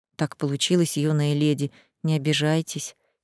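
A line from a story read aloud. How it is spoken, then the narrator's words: Quiet mutter. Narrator (Russian): тихо пробормотал он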